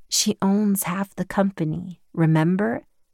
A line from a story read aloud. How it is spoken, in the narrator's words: April said softly